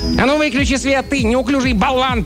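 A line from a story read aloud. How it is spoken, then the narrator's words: Sharp scolding shout. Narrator (Russian): прикрикнул на него один из человечков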